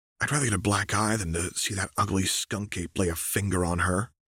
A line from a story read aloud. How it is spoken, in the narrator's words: Harry whispered